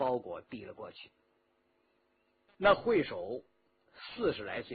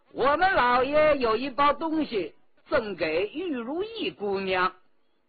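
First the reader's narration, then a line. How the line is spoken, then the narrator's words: Calling out. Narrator (Chinese): 和珅叫道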